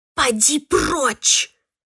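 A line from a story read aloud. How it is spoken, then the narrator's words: Hiss. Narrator (Russian): прошипела я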